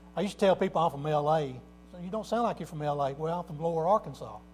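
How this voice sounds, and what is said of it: Southern American twang. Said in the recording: “South Arkansas ... my twang and dialect in my voice”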